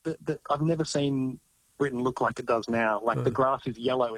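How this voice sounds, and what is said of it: Foreign accent in British setting. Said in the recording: “somehow I've managed to hold on to my accent”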